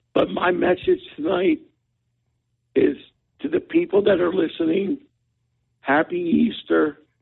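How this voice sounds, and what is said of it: Hoarse voice. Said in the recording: “You sound a little hoarse.”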